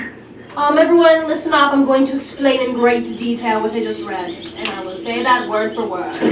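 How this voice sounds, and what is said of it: Usual voice. Nothing is said of it.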